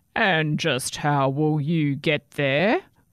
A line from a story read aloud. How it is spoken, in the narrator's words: growled the troll